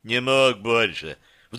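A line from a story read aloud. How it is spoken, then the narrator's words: Sudden guilty bass. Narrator (Russian): вдруг виноватым басом произнес Детина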